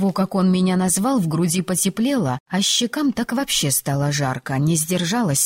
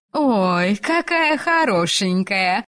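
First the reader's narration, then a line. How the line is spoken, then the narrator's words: Drawled. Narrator (Russian): протянула одна из девушек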